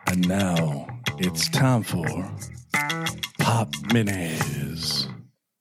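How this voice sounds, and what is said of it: Sultry, sexy announcer voice. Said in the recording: “I do like the sexy voice.”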